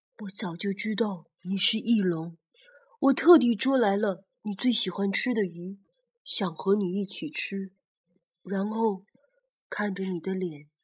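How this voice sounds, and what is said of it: Soft, quiet spoken line. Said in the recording (Chinese): “它望着星空，小声地说”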